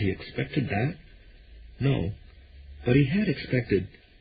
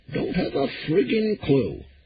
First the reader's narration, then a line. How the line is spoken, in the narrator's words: Pop repeated cheerfully